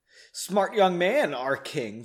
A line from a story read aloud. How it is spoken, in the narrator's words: said much more loudly